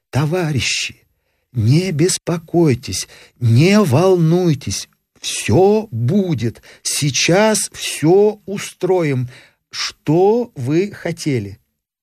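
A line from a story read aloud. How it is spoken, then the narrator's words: Quiet conciliatory voice. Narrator (Russian): Тихим, примиряющим голосом устроитель спросил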